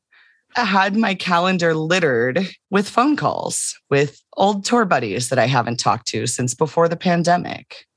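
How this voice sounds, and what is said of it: Slightly rough, worn voice. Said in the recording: “my voice is still a little rough this week ... not sick. My voice is a little rough.”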